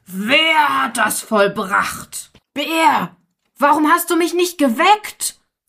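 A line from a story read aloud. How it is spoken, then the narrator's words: Lion roaring terribly. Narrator (German): der Löwe fing er an fürchterlich zu brüllen und rief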